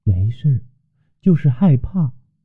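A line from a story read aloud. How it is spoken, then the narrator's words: Quiet, soft voice. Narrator (Chinese): 米诺雪摇了摇头，小声道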